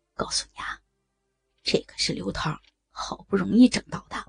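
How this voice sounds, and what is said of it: Quiet, hushed speech. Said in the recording (Chinese): “小声的说道”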